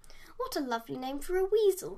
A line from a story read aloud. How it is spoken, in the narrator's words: exclaimed Dave